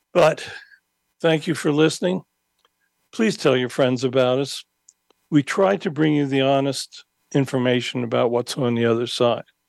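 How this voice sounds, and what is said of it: Hoarse, failing voice. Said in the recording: “I'm losing my voice again. I've been fighting this long COVID”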